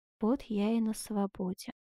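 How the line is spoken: Involuntary low voice. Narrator (Russian): невольно промолвил вполголоса

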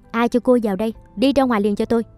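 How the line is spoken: Shocked loud voice. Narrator (Vietnamese): Ngỡ ngàng sửng sốt, bà Phượng lớn tiếng

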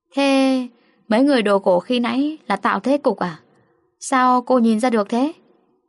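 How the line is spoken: Smiling, half-joking. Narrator (Vietnamese): mỉm cười, tạo vẻ nửa thật nửa giả

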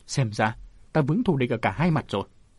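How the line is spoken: Old woman raising voice. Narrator (Vietnamese): Bảy lão bà tự xưng là Mân Sơn bà lại lên giọng

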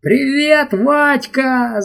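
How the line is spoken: Yelling. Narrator (Russian): заорал он

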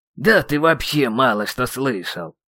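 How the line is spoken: Grumbling. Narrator (Russian): проворчал магистр

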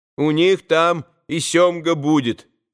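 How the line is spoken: Boy, loud sudden remark. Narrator (Russian): громко заметил вдруг мальчик

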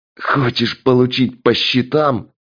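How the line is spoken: Hoarse rasp. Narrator (Russian): прохрипел стрелок

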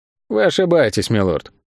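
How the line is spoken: Even tone. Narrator (Russian): ровным тоном ответил Тео

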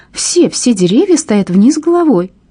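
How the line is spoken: Joyful laughter. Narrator (Russian): она радостно засмеялась

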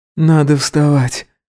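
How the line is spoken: Sleepy speech. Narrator (Russian): сонно сказал Гидеон

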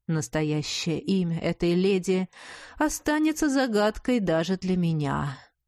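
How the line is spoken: Feigned sigh. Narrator (Russian): притворно вздохнул блондин

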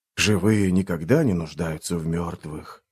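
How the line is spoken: Ghostly downcast mutter. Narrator (Russian): пробормотал дух, опуская голову

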